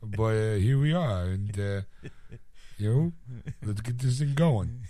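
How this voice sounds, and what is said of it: Put-on character voice. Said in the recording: “I got to do this voice, even though I don't sound like this”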